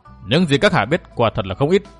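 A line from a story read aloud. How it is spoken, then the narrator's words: Cold female voice. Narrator (Vietnamese): Tiểu Lục Lâm Tử giọng nàng lạnh lùng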